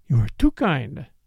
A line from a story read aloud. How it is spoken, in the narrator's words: murmured Catherine